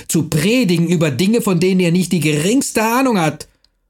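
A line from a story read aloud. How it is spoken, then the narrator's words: Male shouting. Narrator (German): er schrie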